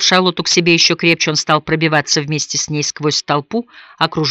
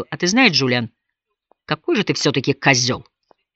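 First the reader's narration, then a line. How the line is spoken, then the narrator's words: Quiet, clear reply. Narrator (Russian): Хойт негромко, но отчетливо ответил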